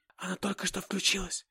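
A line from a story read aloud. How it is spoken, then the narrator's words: Whisper. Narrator (Russian): шепотом добавила Анна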